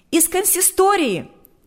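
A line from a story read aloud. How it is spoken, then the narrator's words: Shouting out. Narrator (Russian): выкрикнула она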